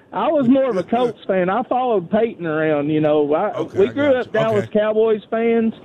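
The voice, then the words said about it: Strong, distinctive regional accent. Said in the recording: “I love your accent, by the way. I could literally listen to you all night long. ... what an accent that guy's got.”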